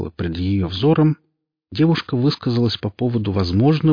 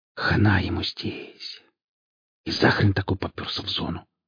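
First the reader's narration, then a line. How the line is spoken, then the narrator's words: Barely audible whisper. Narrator (Russian): сказала она шепотом, так что никто ее не услышал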